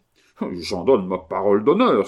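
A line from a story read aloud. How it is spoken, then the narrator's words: Exclaimed. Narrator (French): s'écria le notaire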